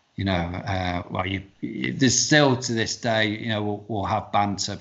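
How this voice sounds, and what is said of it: Northern English accent. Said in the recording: “the Northerners will always take the the mickey out of the Southerners ... they'll tease me about my accent”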